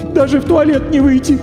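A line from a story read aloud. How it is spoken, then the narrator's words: Sorrowful sob, woman. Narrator (Russian): горестно всхлипнула дама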